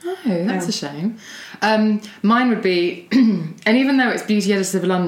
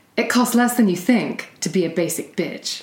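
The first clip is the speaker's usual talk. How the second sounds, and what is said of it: Put-on American accent. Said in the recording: “I have to do it in American accent”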